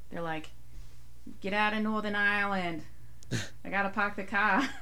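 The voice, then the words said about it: Put-on Boston accent. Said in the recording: “That was really good. ... please tell me how good my accent is ... We have a guest from Boston.”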